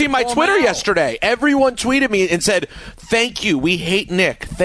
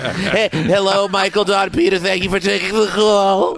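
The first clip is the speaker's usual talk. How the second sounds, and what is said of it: Good imitation of Nick. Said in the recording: “it's a very good imitation.”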